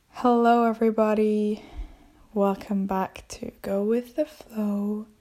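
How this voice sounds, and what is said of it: Slightly out of breath. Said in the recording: “I'm a bit out of breath.”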